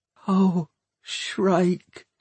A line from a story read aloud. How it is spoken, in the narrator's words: whispered Hester